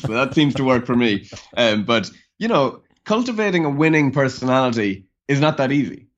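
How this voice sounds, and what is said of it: Irish accent. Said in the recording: “a nice, charming Irish accent”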